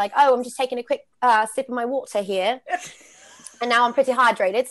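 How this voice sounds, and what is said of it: Put-on posh British accent. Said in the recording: “That's a really posh British accent... oh, that was really good... a British in arena host”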